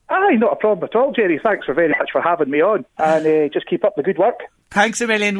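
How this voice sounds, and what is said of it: Scottish accent. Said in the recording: “Hasn't he a lovely accent? Absolutely beautiful. I adore it, uh, the true Scottish accent.”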